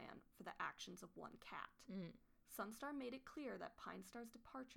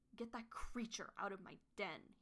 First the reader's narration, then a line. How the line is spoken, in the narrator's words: he snarled